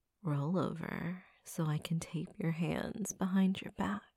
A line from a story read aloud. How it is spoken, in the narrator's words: I whispered into his ear in a breathy, sexy voice